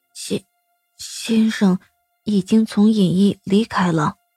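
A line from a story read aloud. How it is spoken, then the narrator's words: Startled, low voice. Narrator (Chinese): 心洛为那压迫感吓了一跳，低声道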